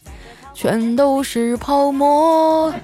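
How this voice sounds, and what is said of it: Softly hummed singing. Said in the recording (Chinese): “小声的哼唱了起来”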